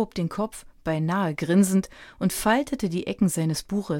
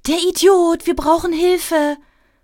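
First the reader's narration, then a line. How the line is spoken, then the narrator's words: Calling out. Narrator (German): rief sie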